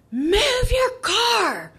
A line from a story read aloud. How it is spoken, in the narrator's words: the blocked driver screamed, her voice full of a raw emotion